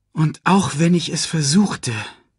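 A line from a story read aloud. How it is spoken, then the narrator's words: Loud sigh. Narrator (German): seufzte laut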